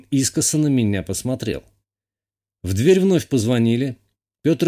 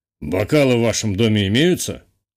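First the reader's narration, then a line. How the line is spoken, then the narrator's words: Forced cheerful question. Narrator (Russian): Чуть более веселым голосом, чем требовалось, поинтересовался отец девушки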